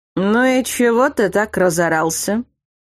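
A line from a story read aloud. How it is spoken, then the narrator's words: Indignant. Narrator (Russian): Возмутился мой муж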